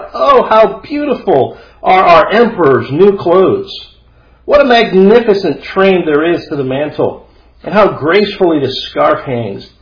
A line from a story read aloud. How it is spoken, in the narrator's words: All the people standing by and those at the windows cried out